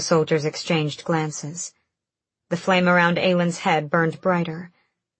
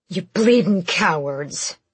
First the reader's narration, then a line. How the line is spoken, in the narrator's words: a soldier snarled